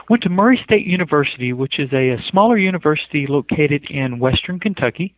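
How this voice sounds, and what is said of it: Rural Kentucky accent. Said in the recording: “I can tell from your accent. ... I was figuring this guy didn't grow up in Utah.”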